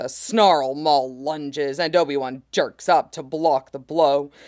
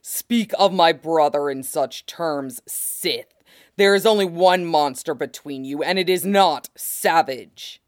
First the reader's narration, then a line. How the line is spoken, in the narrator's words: Maul growls